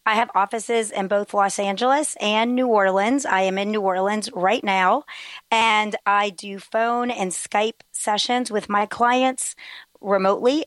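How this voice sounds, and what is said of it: Voice strained from a cold. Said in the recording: “Pardon my voice today. I am recovering from a cold ... It's a bit of a struggle to talk ... pardon any difficulties in understanding me”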